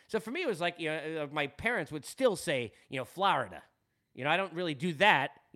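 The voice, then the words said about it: Long Island New York accent. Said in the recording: “because of my bad accent, I said, I'm from Long Island”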